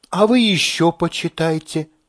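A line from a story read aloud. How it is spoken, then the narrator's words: Gentle advice. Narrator (Russian): мягко советует она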